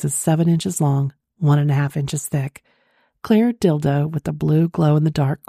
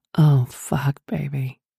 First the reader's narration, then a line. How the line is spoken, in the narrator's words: moaned